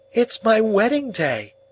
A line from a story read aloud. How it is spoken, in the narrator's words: cried Biddy in a burst of happiness